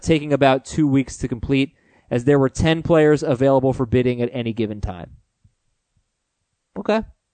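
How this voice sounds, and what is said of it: Hoarse, fading voice. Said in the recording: “Boy, am I losing my voice.”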